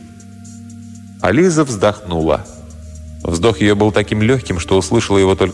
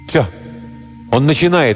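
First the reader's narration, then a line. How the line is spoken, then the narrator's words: Exclaiming. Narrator (Russian): воскликнул Шик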